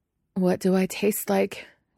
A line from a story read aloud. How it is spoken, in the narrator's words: Guillermo asks unsteadily when Nandor finally lets him breathe